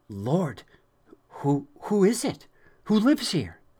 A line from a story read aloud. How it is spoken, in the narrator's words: Very excitedly, Jonathan asked